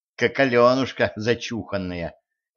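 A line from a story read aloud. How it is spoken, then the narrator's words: Grumbling. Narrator (Russian): ворчала Женька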